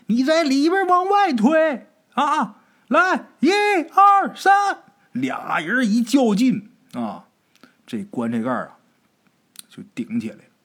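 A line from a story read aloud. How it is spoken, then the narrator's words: Shouting. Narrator (Chinese): 就喊啊，跟王小山就说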